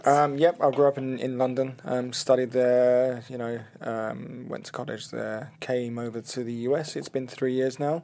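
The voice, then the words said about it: London English accent. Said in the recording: “where is that awesome accent from? ... I'm from London ... I think I said Australia, New Zealand ... South Africa”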